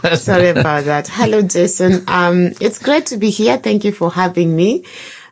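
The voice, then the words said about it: Rough, hoarse voice. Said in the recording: “my voice sounds a bit rough”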